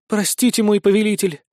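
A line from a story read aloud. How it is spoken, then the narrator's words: Languid breathy sigh. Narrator (Russian): томно выдохнула она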